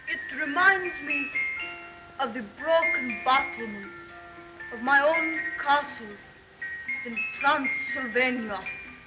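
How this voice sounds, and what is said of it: Imitation of Dracula's accent and cadence. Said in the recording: “she is mimicking Dracula's accent and cadence”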